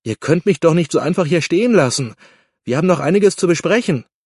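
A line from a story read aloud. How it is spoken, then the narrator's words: Called out. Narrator (German): rief Guido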